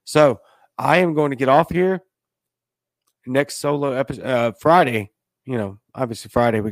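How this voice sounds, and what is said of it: Hoarse, failing voice. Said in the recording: “As you can hear, I'm already losing my voice”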